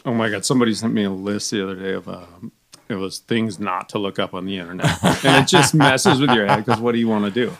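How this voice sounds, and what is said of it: Smooth, masculine radio voice. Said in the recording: “you got a great radio voice ... that's just like smooth and like masculine. You sound handsome on the mic”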